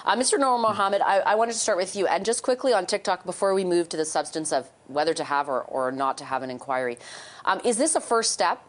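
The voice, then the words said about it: Hoarse, strained, mostly lost voice. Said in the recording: “I apologize for my voice. I'm not sick, I promise. I've just lost it.”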